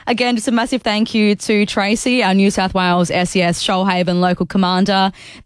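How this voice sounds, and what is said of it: Slightly croaky, hoarse voice. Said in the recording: “I've got a little croak in my throat, so if I lose my voice about halfway through the show”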